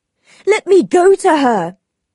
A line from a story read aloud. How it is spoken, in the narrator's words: cried Mr